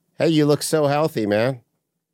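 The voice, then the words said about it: Sarcastic delivery. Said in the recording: “I felt like that was sarcasm.”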